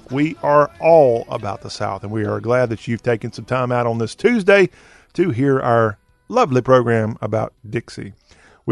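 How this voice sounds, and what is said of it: Strong Southern US accent. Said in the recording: “Talk with a very, very distinct Southern accentuation. ... We talk with a Southern accent”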